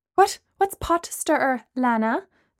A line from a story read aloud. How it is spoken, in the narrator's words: Gemma asked nervously